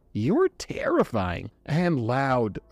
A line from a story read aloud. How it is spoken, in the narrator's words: Corey groaned